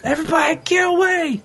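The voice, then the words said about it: Shouting a warning. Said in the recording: “I'm yelling about it ... he's yelling about it”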